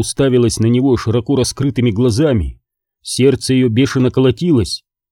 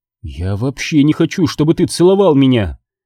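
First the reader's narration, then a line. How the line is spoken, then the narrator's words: Angry answer. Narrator (Russian): ответила Кэролайн, … сердито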